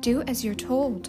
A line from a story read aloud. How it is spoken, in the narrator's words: said sharply